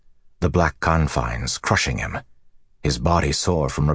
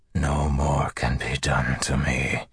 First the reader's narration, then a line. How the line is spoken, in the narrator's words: he whispered